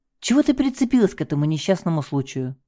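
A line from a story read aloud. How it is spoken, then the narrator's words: Sigh. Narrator (Russian): вздохнул он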